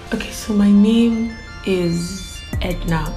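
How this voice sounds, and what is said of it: Nigerian Igbo accent. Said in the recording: “I'm Igbo, by the way, I'm Igbo. I don't know if you tell from my diction or accent, but I'm Igbo.”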